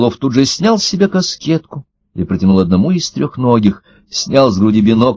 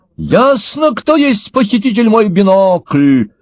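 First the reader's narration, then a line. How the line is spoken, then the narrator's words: Shouted. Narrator (Russian): закричал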